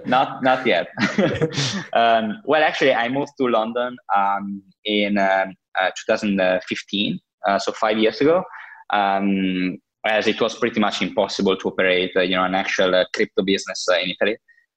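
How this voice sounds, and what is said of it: Italian accent. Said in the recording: “As you can easily guess from my accent, I'm Italian ... No London accent”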